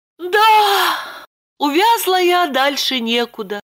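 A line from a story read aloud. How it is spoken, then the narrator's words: Resigned sigh. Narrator (Russian): обреченно вздохнула Липочка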